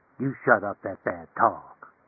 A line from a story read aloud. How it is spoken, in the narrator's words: he said softly and tonelessly